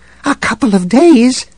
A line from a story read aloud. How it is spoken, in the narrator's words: a voice squeaked